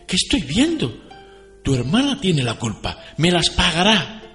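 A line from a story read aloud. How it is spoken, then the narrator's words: Mother exclaiming. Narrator (Spanish): exclamó la madre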